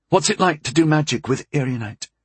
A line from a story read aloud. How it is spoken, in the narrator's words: She asked eagerly